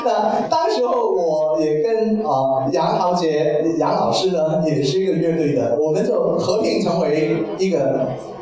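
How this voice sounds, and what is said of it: Mandarin with slight Taiwanese-like accent. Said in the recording (Chinese): “我的口音不是纯种的 ... 我听得有点台湾腔 ... 我是香港人”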